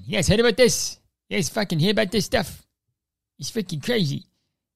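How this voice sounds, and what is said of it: Imitates another person's voice. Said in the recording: “This is my Jay Leno impression.”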